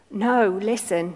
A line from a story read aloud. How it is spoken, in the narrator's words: he pleaded